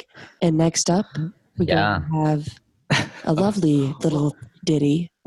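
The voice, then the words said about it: Smooth jazz radio DJ voice. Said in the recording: “You sound like a current, like the current DJs. ... Like a jazz DJ.”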